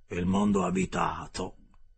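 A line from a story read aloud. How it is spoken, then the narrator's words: Exclaiming. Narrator (Italian): esclamò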